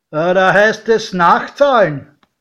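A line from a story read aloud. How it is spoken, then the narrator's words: Doorman calling out. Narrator (German): Der Türsteher rief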